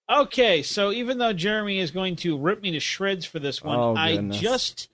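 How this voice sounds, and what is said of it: Usual voice. Nothing is said of it.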